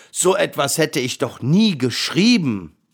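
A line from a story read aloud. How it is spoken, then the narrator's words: Roaring lion. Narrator (German): brüllte der Löwe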